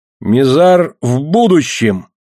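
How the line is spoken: Exclamation. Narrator (Russian): воскликнул Элон

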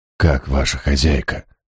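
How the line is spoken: Whispered question. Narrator (Russian): шепотом осведомился я

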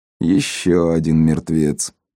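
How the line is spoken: Grim, through teeth. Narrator (Russian): мрачно процедил Генри

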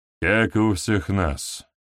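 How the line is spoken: Grumble. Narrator (Russian): проворчал Штырь

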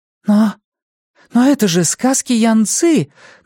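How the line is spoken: Exclaimed at last. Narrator (Russian): наконец воскликнула она

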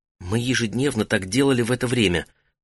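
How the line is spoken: Whispered. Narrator (Russian): прошептала Сидуду

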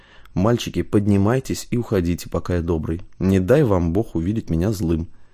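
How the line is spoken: Very quiet, private. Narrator (Russian): сказал Василий, проговорив очень тихо, чтобы слышали только они

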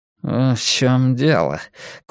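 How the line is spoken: Curt mutter. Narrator (Russian): коротко буркнул Блор

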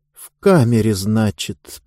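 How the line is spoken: Muttered through teeth. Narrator (Russian): процедил, наконец, Диба

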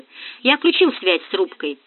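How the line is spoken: Sighing, unsmiling. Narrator (Russian): вздохнул Нагорин без улыбки

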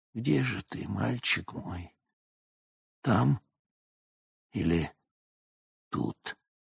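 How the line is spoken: Whisper. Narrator (Russian): Малер прошептал

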